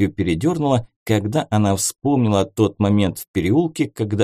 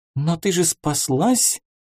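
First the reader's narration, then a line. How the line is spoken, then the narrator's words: Frightened squeak. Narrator (Russian): испуганно пропищала Снежана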